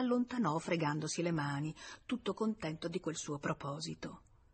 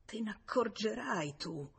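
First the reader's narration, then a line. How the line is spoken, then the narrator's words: Muttering. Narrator (Italian): mormorando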